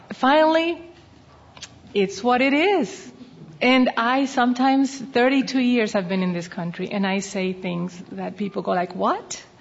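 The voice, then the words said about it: Noticeable accent. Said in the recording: “I have an accent. I have been told a trillion times I have an accent.”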